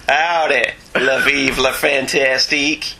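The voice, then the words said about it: French phrase in a Texan accent. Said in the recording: “speak French in a Dallas accent?”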